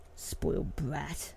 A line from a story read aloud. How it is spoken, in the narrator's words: he muttered under his breath